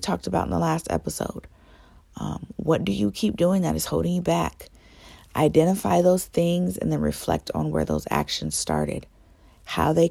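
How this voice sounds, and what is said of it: Strained voice. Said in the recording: “my voice is sounding a little strained ... a cold did run through my home”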